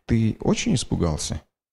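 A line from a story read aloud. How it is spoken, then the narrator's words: Quiet question. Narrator (Russian): тихо спросила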